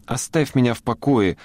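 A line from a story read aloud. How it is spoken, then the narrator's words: Irritated girl's squeak. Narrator (Russian): раздраженно пискнула девочка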